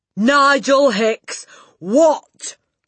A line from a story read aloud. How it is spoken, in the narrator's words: the Trunchbull bellowed